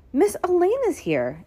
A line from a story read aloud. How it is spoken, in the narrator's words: exclaimed Daniel happily